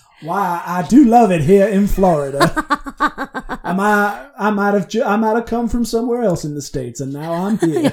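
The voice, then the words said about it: Put-on attempt at Florida accent. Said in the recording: “I have no idea what a Florida accent is”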